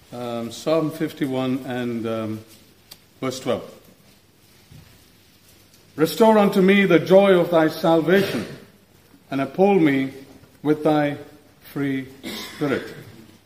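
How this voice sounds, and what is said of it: Non-native English accent. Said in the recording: “English was his second language, and by inference that makes English my maybe 10th language, so I hope you will put up with my accent”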